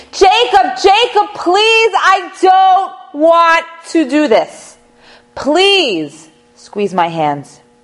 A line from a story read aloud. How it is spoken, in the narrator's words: cry and to beg and to plead and to scream